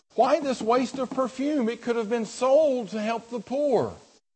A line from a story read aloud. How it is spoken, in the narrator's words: Some of those present were saying indignantly to one another